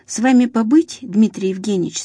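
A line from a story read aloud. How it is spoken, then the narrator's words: Plain question. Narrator (Russian): спросил начальник медсанчасти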